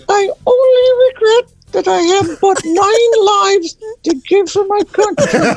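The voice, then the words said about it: Voice of a cat character. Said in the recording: “my impression of Nathan Hale's cat”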